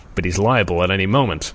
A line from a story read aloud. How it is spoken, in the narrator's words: Scott answered